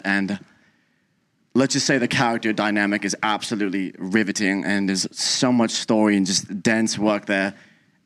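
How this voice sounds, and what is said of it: Put-on accent. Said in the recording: “How long did you practice this accent in the mirror?”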